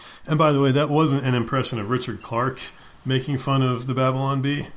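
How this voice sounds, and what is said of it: Usual voice. Nothing is said of it.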